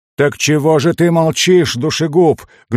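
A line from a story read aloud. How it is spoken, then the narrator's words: Dwarf roaring very loudly. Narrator (Russian): гном взревел так, что переполошил половину улицы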